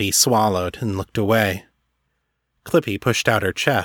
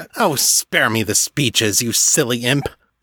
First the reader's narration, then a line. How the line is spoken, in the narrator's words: the master snapped